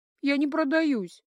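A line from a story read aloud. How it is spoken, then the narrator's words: Sobbing. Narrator (Russian): сообщила, всхлипывая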